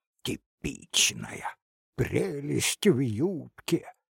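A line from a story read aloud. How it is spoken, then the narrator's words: Furious mocking whisper. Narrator (Russian): яростным шепотом передразнил старшина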